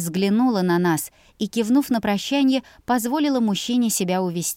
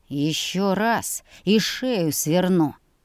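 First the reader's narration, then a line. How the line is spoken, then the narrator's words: Through gritted teeth. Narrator (Russian): процедил Хейл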